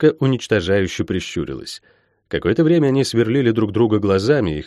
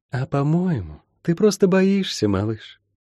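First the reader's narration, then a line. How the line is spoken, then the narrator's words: Honeyed, knowing voice. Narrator (Russian): понимающе улыбнулось и медовым голосом произнесла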